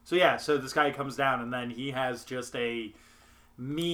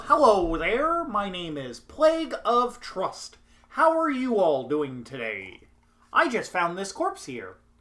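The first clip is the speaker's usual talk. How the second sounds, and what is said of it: Kermit the Frog voice impression. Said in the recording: “trying to do my best Kermit the Frog impression”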